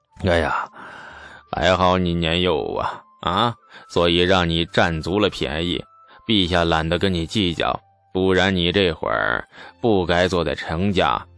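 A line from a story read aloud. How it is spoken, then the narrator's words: Scoffing laugh. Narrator (Chinese): 牛进达嗤的一声笑了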